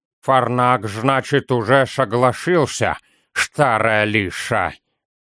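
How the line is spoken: Toothless mumble. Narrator (Russian): прошамкал Тан

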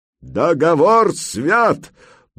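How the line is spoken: Crowd barking in unison. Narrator (Russian): дружно рявкнули десятка-полтора глоток

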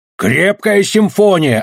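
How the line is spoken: Yelling. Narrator (Russian): орал он

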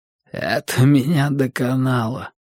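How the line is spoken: Hoarse strained words. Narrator (Russian): хрипло выдавил Даффилд

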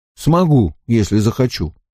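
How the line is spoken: Calm. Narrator (Russian): спокойно сказал он

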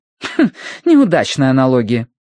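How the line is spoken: Woman's snort. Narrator (Russian): фыркнула женщина

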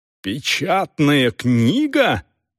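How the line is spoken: Frightened or surprised exclamation. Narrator (Russian): воскликнула Дорс с таким голосом, что трудно было сказать, напугана она или удивлена

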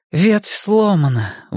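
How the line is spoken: Breathless exhale. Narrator (Russian): выдохнула Энея

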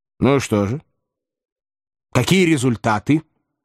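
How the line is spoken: Stern question. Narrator (Russian): строго спросил Филипп Филиппович

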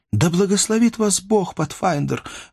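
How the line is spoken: Exclaiming. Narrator (Russian): воскликнула Мейбл

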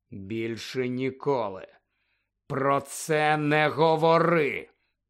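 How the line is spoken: Hissing. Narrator (Ukrainian): прошипів Гаррі

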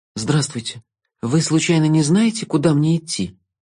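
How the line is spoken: Timid female voice. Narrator (Russian): Робко обратилась она

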